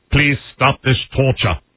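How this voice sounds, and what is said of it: Impression of Police Academy character. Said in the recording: “Now the guy from Police Academy.”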